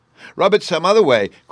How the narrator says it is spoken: cried Bruno

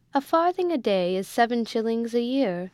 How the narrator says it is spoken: answered the M

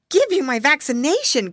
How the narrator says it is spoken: cried Curly

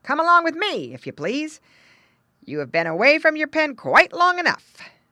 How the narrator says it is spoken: barked the dog

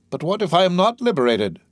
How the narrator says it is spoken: cried he

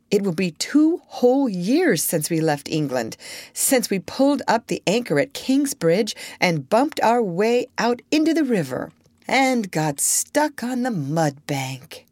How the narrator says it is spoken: added Chee-Chee in a dreamy, faraway voice

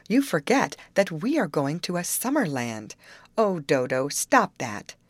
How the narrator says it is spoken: she cried

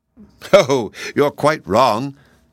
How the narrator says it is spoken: declared Polychrome, laughing, for she was greatly enjoying the confusion of the others

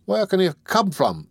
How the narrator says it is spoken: exclaimed Toby

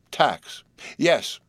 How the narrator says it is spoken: he agreed wildly

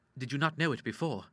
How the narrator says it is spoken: he asked

